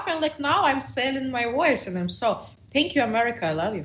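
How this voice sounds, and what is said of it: Non-native accent, deep voice. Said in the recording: “how sexy my accent ... you speak like a dude”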